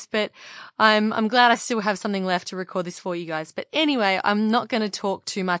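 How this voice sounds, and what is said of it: Husky, partly lost voice. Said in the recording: “why is her voice all husky? ... I'm kind of lost my voice”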